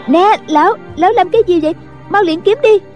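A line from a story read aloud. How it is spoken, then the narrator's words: Young girl's panicked cry. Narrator (Vietnamese): tiếng một thiếu nữ la lên thất thanh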